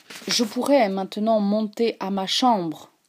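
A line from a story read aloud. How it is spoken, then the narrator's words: Plain. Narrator (French): dit-il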